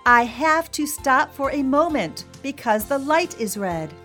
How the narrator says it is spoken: In his loudest voice, he said

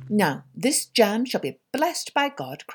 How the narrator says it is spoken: cried the little tailor

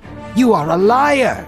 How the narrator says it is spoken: Johanan spat

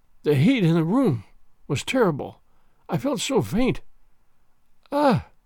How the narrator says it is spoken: She uttered a groan, and murmured faintly

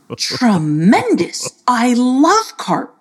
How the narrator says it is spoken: exclaimed I don't know

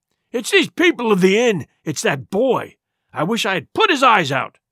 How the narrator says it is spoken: cried the blind man, Pew

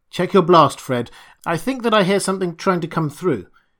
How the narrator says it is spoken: Cleveland called out sharply

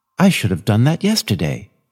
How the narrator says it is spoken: she exclaimed to herself

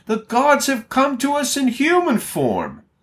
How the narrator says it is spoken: the crowd shouted, saying in the Lycaonian language

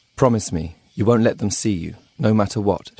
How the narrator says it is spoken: she says

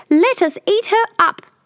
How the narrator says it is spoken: Tiny Bear squeaked

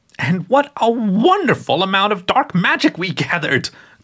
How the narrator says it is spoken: Gertrude exclaimed

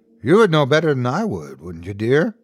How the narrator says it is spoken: chuckled maliciously

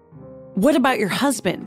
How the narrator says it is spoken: sputtered

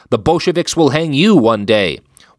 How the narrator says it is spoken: Streicher shouted

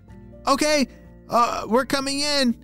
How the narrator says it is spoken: shouted Xander

